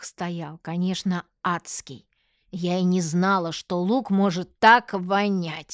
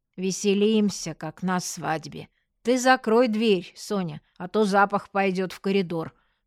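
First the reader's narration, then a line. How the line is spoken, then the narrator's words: Tearful grumble. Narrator (Russian): буркнула Аня, вытирая рукавом слезы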